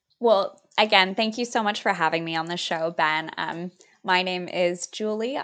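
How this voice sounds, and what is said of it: Californian American accent. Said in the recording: “you've got this beautiful californian accent”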